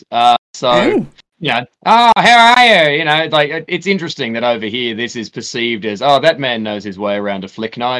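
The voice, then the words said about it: Australian accent. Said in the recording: “came in from the Australian suburbs ... moved over here to the UK, where my accent”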